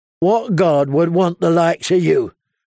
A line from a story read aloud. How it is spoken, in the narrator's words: growled Lem